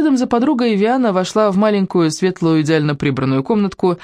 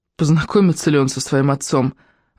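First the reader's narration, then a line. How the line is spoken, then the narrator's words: Sighing. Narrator (Russian): вздохнула Рошель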